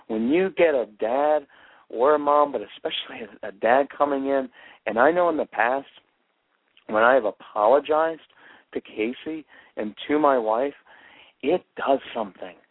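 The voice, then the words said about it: Quivering, emotional voice. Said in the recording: “I can hear this. My voice is kind of quivering a little bit”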